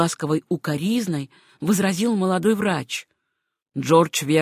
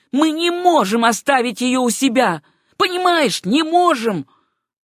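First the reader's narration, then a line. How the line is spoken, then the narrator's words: Near shout. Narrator (Russian): почти крикнул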